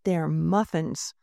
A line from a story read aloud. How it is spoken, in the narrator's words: Mona said angrily